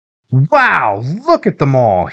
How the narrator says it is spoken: he said excitedly

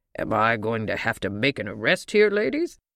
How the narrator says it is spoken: he asked in his gruffest voice

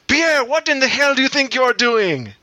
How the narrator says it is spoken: Marie throws her arms into the air and screams furiously

